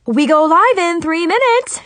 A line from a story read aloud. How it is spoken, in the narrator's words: exclaimed excitedly